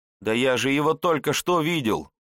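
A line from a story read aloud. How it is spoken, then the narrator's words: Boy shouting in despair. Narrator (Russian): в отчаянии закричал отрок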